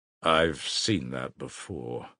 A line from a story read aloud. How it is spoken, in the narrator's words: muttered the official